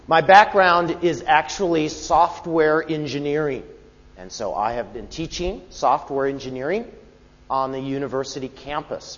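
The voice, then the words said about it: American accent. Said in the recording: “I'm from the United States. And so you will have to excuse the non-Kiwi accent”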